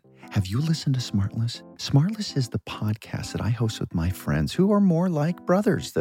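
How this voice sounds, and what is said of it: Whispering. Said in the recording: “why are you whispering? ... Well, there's a psst in the copy.”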